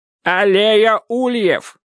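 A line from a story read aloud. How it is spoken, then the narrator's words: Shouting into phone. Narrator (Russian): кричал Дек в трубку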